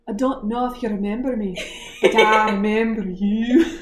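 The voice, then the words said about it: Put-on Scottish accent. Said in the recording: “This is my Scottish accent ... That's very good,”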